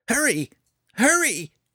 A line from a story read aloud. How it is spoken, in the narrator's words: Fret cried, watching them anxiously